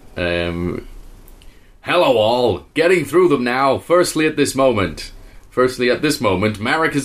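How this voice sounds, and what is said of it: George Costanza New York accent. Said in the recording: “read this out in a George Costanza out of Seinfeld accent ... Just do New York ... I have no idea if that's New York.”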